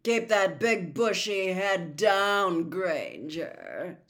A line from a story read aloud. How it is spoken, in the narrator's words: sneered Malfoy